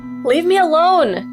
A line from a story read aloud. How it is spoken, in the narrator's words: Camille yells